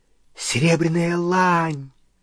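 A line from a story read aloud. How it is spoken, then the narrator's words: Excited exclamation. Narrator (Russian): взволнованно воскликнул он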